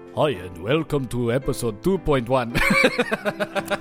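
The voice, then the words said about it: Vampire-like Spanish count accent. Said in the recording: “Just don't do the accents. ... And what was that? Like, kind of a vampire? ... It was Spanish Count.”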